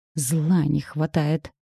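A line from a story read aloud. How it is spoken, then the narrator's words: Sighing grumble. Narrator (Russian): вздохнув, проворчала Анька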